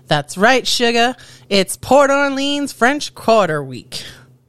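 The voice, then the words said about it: Attempted Southern US accent. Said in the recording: “Gotta work on my southern accent.”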